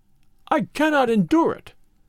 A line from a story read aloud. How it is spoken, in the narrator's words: he cried